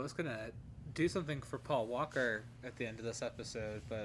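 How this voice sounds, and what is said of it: Usual voice. Nothing is said of it.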